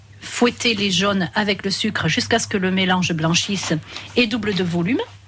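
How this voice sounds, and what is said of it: Slight Basque accent. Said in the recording (French): “Il y a un petit accent basque hein, chez vous. ... Il y a un petit accent.”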